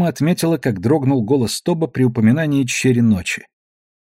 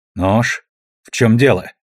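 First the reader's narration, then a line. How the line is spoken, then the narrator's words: Irritated question. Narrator (Russian): раздраженно вопросила Дрема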